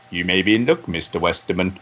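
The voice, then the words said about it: James Bond impression. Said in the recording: “I should do the James Bond voice”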